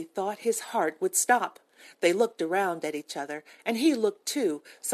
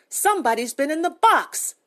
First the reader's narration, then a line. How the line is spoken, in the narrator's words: Gracie cried